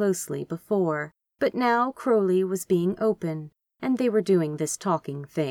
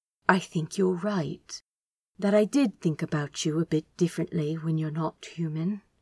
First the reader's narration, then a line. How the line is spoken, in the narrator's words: started gently